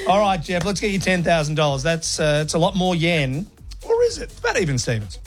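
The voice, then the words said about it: Broad Australian accent. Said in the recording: “my bogan accent”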